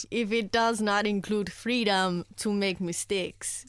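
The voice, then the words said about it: Put-on Jamaican accent. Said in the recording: “Nice. Jamaican. ... Yeah, it's got to be Jamaican. ... That was good. ... That's probably the best accent I've ever done.”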